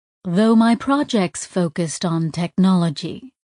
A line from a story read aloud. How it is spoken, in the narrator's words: Tack said smoothly